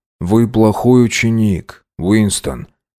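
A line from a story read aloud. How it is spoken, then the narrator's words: Soft, gentle. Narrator (Russian): мягко сказал О'Брайен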